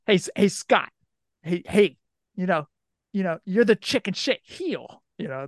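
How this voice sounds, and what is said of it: Put-on New York accent. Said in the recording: “And he had that New York accent. ... I think that's how the New Yorkers talk. ... You almost got like a John Travolta Saturday Night Fever thing going on there. ... you got the accent down.”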